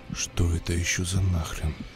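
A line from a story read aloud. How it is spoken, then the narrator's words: Whispering. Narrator (Russian): прошептал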